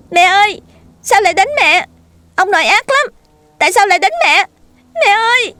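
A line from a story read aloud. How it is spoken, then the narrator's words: Piercing scream. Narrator (Vietnamese): Tiếng của cậu thét lên như phá vỡ màn đêm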